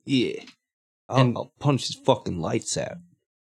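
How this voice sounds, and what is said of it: Mixed New York Italian-Australian accent. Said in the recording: “I don't know what this accent is I'm doing. It's like somewhere between like New York Italian and Australian”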